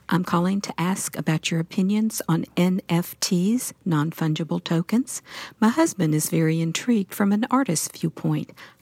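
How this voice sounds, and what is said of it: Genuine Southern American accent. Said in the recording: “y'all said in an actual Southern accent”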